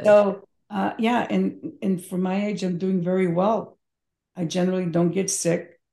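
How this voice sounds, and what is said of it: Hoarse voice. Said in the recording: “You see my hoarseness? It's whatever was in the air.”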